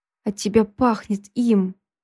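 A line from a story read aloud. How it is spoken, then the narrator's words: Through gritted teeth. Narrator (Russian): процедил Никита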